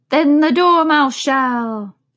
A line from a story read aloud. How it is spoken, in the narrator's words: they both cried